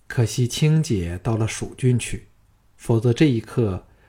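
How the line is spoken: Sighing. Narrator (Chinese): 季嫣然叹道

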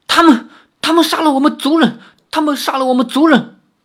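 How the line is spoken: Trembling voice. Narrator (Chinese): 阿奴颤声说道

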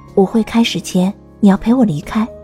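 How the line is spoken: Low voice. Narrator (Chinese): 欧阳云云低声对钟兰人说

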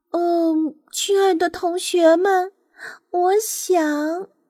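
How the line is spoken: Sighing. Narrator (Chinese): 他叹息着说

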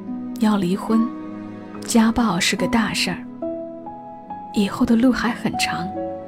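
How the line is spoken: Grandmother muttering to herself. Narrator (Chinese): 奶奶喃喃自语

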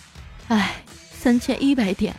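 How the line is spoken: Sighing. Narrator (Chinese): 彩彩叹了口气说

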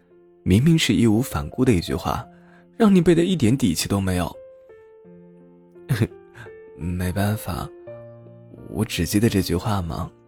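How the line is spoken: Laughing. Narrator (Chinese): 笑道

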